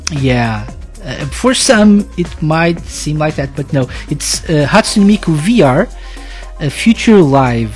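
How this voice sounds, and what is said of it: Portuguese-accented English. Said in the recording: “my Portuguese accent sometimes betrays me”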